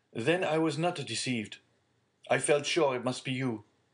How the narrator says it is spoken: cried Villefort

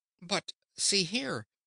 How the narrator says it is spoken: exclaimed Dorothy

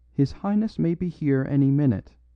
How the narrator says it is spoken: he said

